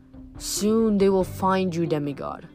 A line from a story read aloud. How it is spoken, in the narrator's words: that voice had rumbled